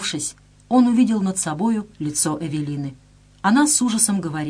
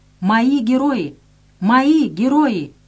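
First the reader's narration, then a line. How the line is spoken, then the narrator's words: Weak shout through coughing. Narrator (Russian): Он, уже теряя сознание, сквозь глухой кашель выкрикнул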